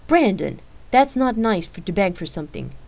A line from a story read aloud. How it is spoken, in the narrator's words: Rain replied sternly